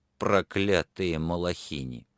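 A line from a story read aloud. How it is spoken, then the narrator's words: Irritated mutter to himself. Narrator (Russian): он раздраженно буркнул про себя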